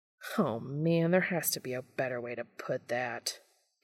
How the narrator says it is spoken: Dean groans

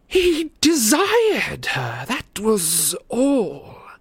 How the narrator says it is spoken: sneered Voldemort

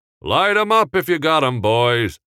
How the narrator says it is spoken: Henry called out in a jovial voice

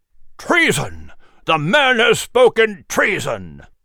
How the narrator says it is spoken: Speaker Robinson bellowed

